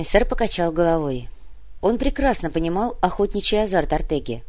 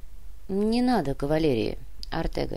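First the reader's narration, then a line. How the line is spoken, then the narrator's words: Quiet. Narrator (Russian): негромко произнес Сантьяго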